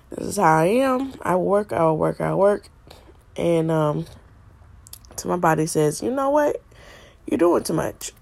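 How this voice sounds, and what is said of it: Sick, strained-sounding voice. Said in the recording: “I've been sick for the last couple of days. My voice has been horrible”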